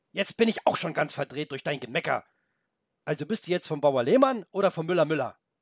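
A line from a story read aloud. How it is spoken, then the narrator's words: Suddenly loud. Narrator (German): weil er plötzlich so laut geworden war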